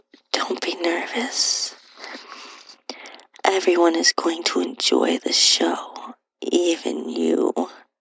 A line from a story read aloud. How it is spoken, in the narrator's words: whispered